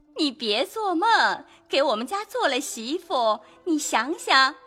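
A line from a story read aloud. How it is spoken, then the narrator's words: Laughing. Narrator (Chinese): 凤姐笑道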